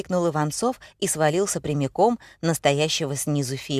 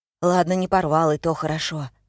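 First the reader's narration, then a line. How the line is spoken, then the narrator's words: Sighed. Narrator (Russian): вздохнул Митя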